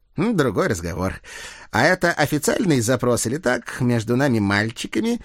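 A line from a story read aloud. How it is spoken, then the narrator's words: Giggling. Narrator (Russian): хихикнул капрал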